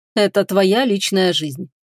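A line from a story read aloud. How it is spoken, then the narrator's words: Cold, curt dismissal. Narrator (Russian): холодно отрезал Фенрис, не желая ее слушать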